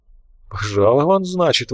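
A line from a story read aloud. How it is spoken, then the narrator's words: Breathed out. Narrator (Russian): выдохнул Лунин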